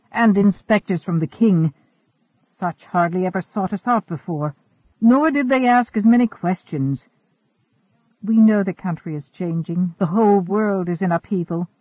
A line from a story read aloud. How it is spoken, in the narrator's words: Asagao sighed